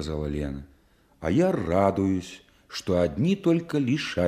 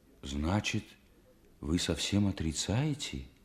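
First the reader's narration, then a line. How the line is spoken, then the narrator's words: Horrified near-whisper question. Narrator (Russian): Ужасаясь, почти шепотом спросил Стримухов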